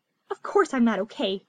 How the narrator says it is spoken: snapped through her fingers

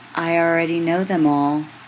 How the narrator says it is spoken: says tenderly

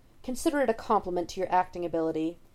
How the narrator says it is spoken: Watson snaps

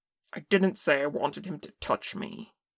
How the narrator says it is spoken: Kim snapped

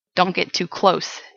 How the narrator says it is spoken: the Englishman growled

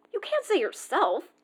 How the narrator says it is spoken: Mike pointed his finger accusingly

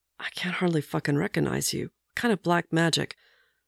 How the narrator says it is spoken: he leans down and mutters

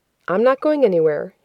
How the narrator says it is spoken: he said

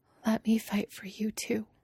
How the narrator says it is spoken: she whispers

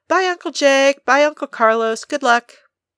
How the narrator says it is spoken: Beth called out

